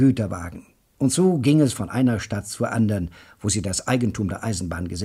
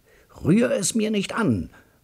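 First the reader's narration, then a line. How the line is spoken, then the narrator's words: Roaring. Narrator (German): brüllt mein Bruder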